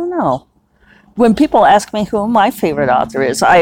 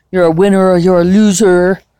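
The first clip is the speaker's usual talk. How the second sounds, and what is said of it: Imitates another person's voice. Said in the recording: “my Trump imitation.”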